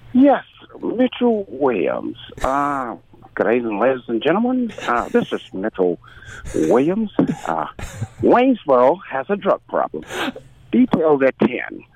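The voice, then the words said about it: Impression of Mitch Williams. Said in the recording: “you developed a pretty good impression of Mitch Williams”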